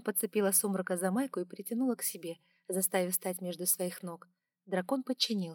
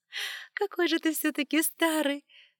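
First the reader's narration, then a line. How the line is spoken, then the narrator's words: Laughing. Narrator (Russian): рассмеялась я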